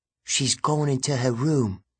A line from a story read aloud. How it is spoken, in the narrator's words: Enoch whispered